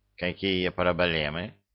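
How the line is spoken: Menacing. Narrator (Russian): грозно нахмурился Лешак

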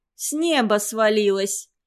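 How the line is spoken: Laughing. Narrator (Russian): засмеялась Таджихон

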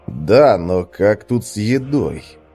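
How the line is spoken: Worried mutter. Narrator (Russian): пробормотал Свен озабоченно

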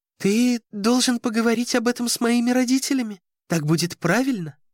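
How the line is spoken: Timid girl's babble. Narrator (Russian): пролепетала девушка

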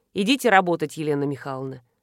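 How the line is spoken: Dry, curt. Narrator (Russian): сухо сказал Радецкий

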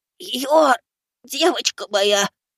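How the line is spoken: Hoarse, coughing blood. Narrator (Russian): Хриплю, кашляя кровью

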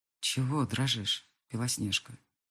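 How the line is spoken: Hoarse question. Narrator (Russian): спрашивает хрипло

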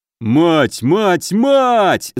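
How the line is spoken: Bellowed. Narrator (Russian): заорал Добрыня

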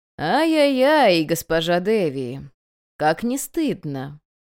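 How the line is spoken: Gleeful singsong drawl. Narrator (Russian): Нараспев, почти с удовольствием протянул он

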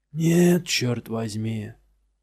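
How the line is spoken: Grumbling. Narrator (Russian): проворчал Сала

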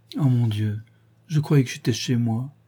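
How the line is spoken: Sighing woman. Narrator (French): soupira-t-elle

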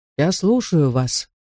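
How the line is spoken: Calm, quiet reply. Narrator (Russian): спокойно и тихо отозвался негр

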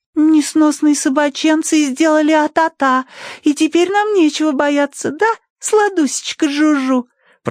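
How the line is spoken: Cooing. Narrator (Russian): проворковала Тосси

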